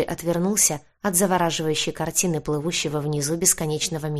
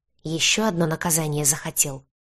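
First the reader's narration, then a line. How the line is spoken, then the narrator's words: Hissing. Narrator (Russian): прошипел высокий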